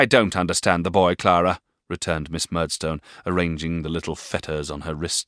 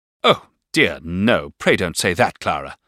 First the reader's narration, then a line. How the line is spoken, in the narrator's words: interposed Miss Murdstone angrily